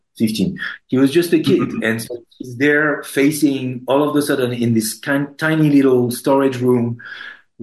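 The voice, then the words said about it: Speaks with a foreign accent. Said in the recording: “my accent is sometimes a little bit wrong”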